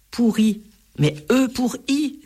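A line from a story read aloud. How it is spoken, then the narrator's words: Crying out. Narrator (French): s'écrie Enzo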